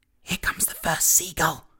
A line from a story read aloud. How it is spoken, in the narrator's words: whispered James